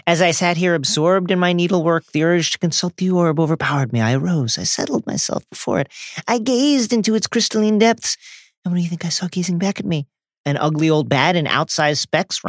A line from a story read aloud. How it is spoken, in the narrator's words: Ron muttered under his breath